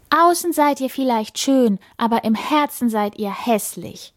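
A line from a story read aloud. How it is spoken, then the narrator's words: Calling out. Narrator (German): ruft sie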